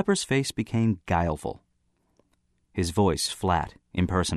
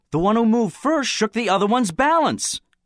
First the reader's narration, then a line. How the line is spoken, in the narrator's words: Someone on the platform exclaimed